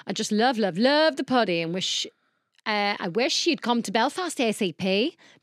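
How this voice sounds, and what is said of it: Badly done put-on accent. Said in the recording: “I hope you enjoyed that horrendous accent.”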